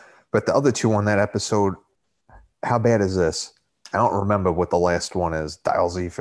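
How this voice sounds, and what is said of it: Usual voice. Nothing is said of it.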